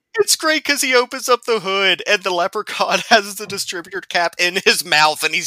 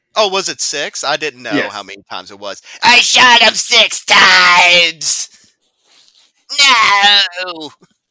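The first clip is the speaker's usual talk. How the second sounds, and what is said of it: Imitates a movie character's voice. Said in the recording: “your Loomis impression”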